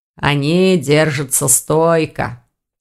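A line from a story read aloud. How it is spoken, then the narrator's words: Plain. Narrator (Russian): ответил ректор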